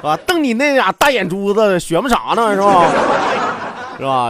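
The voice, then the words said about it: Put-on Northeastern Chinese accent. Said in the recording (Chinese): “用东北话 ... 说说东北话”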